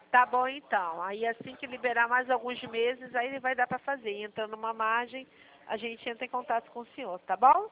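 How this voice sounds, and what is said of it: Carioca Brazilian Portuguese accent. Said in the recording (Portuguese): “que sotaque bonito, hein? ... Que sotaque bonito. ... Carioca, né? ... carioca gente, da gema.”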